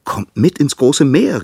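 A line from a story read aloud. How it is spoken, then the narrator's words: Cheerful call. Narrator (German): rief munter zu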